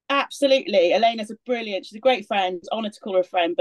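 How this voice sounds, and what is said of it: Welsh accent. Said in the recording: “my Welsh accent coming out. I'm from Swansea originally.”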